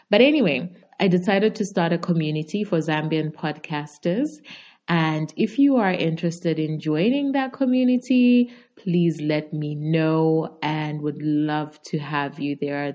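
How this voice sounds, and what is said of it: Zambian accent. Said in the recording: “I'm from Zambia and obviously a Zambian podcaster ... my accent”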